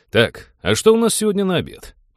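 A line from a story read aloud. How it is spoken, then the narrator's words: Exaggeratedly cheerful interruption. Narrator (Russian): Преувеличенно бодро перебил его капитан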